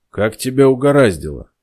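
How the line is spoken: Calm question, boss. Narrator (Russian): спокойно спросил босс

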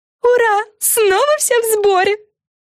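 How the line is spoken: Excited yell. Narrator (Russian): завопила Френ

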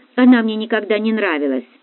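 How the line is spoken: Snort. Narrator (Russian): фыркнула Дарья

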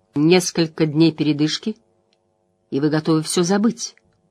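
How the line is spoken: Quiet, even voice. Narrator (Russian): Ее тихий ровный голос резко контрастировал с огнем в глазах

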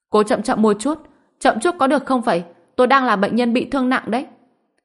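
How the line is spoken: Pained shout. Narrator (Vietnamese): Dương Đông suýt xòa, đau đớn hét lên

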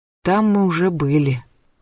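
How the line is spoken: Tired. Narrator (Russian): устало сказала Рути

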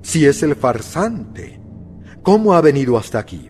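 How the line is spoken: Exclaimed. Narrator (Spanish): exclamó

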